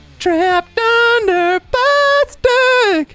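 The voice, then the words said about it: Sung in falsetto. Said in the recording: “I've been working on my falsetto.”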